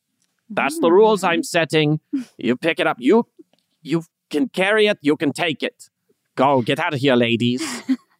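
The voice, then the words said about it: Terrible parody German accent, Frau Blücher. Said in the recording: “You sound so much like Frau Blücher right now ... parody German accent, terrible”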